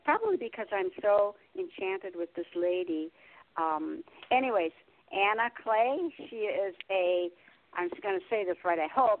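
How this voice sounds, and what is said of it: Slightly raspy voice. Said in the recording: “excuse my voice, it's a little raspy”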